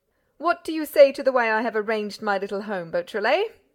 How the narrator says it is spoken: cried Lupin

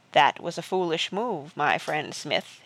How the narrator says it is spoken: said softly

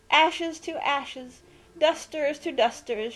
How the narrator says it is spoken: she cried loudly

